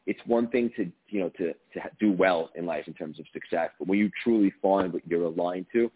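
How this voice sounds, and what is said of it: New York tri-state accent. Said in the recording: “I heard the accent. ... one of my peeps from the tri-state area”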